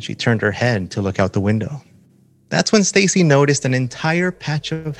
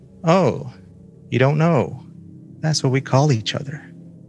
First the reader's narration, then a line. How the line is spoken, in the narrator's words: Her seatmate sighed and said